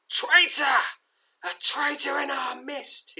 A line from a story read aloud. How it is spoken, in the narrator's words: screams